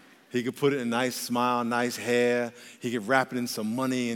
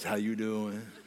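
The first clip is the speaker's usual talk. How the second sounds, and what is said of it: Sultry, seductive voice. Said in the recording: “The devil can disguise himself in a sexy voice”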